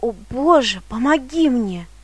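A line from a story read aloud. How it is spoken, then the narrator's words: Exclamation. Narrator (Russian): воскликнул он наконец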